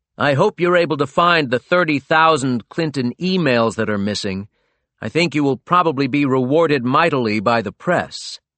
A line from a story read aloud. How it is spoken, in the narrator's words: he bellowed at a campaign event